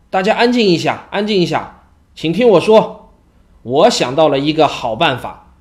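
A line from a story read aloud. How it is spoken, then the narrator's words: Loud, pleased. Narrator (Chinese): 他脸上闪过一丝喜色，大声地说道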